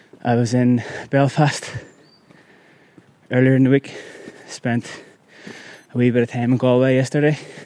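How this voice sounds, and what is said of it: Out of breath while speaking. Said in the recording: “Sorry if I'm sounding out of breath here. It's fucking hella steep.”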